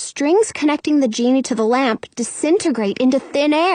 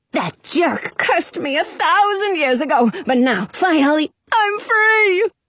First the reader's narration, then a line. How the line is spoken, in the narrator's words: the genie cries